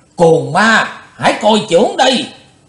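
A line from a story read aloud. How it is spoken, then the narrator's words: Forceful shout. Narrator (Vietnamese): câu quát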